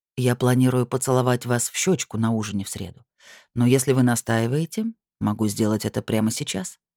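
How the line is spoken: Dry. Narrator (Russian): ректор сухо сказал

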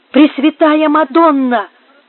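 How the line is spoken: Startled exclamation. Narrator (Russian): воскликнула несчастная, отшатнувшись в сторону

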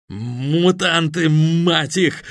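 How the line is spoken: Stammering shout. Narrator (Russian): заикаясь, выкрикнул одноногий

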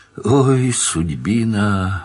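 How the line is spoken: Resigned sigh. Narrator (Russian): вздохнул наконец, и в этой кратной реплике читалась должная обреченность

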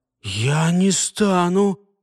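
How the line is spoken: Strained, forced out. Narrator (Russian): выдавил из себя Альфред через силу

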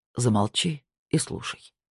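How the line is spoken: Calm. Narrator (Russian): спокойно сказал он

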